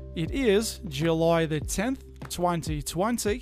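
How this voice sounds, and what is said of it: Put-on Australian accent, rising inflection. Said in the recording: “I am not Australian. I'm having a bit of fun with you. ... people kind of talk like this. They had a bit of an uptick at the end of their sentences. ... Aussie-Australian impersonation, I just put a little bit of an inflection at the end of all my sentences.”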